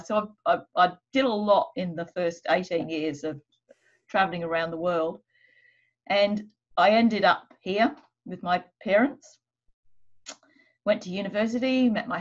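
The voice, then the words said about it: Strong Australian accent. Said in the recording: “my accent, which apparently now is extremely Australian”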